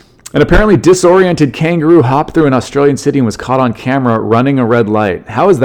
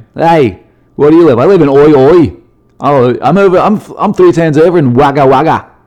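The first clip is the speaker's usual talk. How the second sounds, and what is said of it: Put-on Australian accent. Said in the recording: “What a great name for a place in Australia with that accent ... You're Australian ... I don't know how good that accent is, but it's fun to do.”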